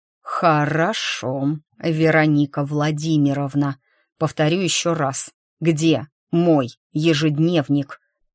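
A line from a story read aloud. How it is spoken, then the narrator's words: Growled with restrained fury, clipped. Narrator (Russian): Со сдерживаемой яростью прорычал этот псих, чеканя каждое слово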